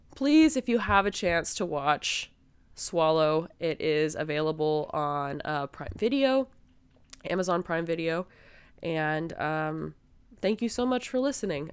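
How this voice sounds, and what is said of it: Sick-sounding voice, below its usual. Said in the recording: “my voice is not up to par with how it typically is. I am working on, you know, getting healthy again”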